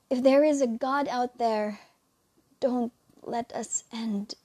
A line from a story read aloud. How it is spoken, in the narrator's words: he pleaded to the unknown